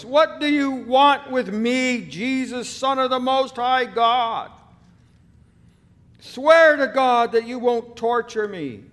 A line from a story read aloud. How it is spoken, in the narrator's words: He shouted at the top of his voice